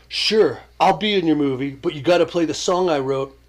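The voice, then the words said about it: Imitates another person's voice. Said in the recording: “This is my imitation of TP.”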